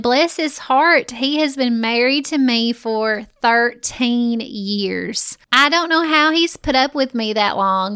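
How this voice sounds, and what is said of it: Strong Southern US accent. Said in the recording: “if you think my voice is very southern”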